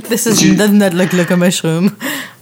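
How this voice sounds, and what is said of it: Put-on French accent. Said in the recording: “I affected a French accent... I was being an art critic from France”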